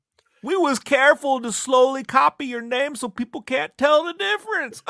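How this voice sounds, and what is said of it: Put-on dumb guy accent. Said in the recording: “What's with the accents? I don't know. That's our dumb guy accent.”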